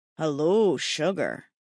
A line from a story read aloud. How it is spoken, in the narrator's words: Declan purred